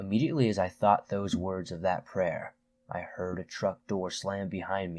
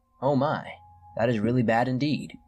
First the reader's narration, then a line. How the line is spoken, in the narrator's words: said